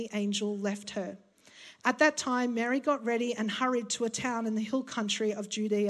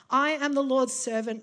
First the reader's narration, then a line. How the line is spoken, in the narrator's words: Mary answered